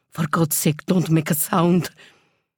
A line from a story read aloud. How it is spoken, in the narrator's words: her mother whispered